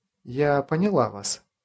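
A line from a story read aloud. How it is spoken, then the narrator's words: Soft. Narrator (Russian): мягко сказала она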